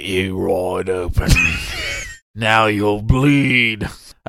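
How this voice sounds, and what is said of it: Weak Jason Statham impression. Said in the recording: “I don't have a great impression of Jason Statham. ... That was a mix of Henry Cavill's do You Bleed Do you from bleed? Justice League and one of the characters from Pirates of the Caribbean.”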